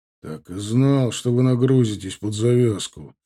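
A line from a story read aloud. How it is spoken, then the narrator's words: Displeased grumble. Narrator (Russian): недовольно проворчал Иван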